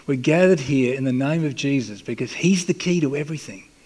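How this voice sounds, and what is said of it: Speaks with a noticeable accent. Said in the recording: “I hope you'll forgive my accent. I can't do much about it.”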